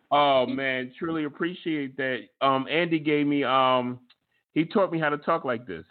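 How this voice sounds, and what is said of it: Great radio voice. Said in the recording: “I love your voice. You got a great radio voice.”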